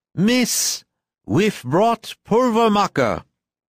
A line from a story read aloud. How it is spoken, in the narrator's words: pulling himself together, said boldly and loudly